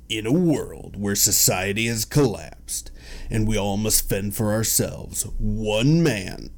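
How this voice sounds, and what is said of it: Dramatic movie trailer narrator voice. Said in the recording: “Let me try this in my best movie trailer guy voice.”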